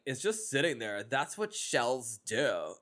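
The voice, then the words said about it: Put-on accent imitating a character. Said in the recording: “You're so good at the accent.”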